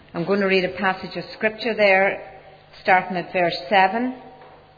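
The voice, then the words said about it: Strong accent, loud voice. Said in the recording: “I have quite a strong accent ... the reason why I speak so loud”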